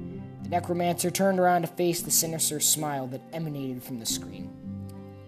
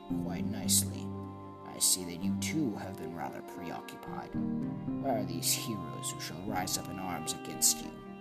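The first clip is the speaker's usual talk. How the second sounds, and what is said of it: Raspy villainous character voice. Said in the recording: “a raspy voice spoke from the box”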